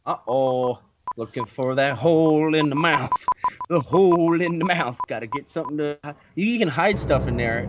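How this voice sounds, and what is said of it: Canadian-sounding accent. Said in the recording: “Your fucking accents just make me laugh every time. You sound like Canadians.”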